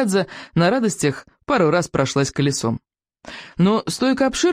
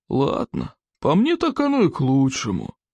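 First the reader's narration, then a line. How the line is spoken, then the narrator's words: Drawled. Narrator (Russian): Одноглаз протянул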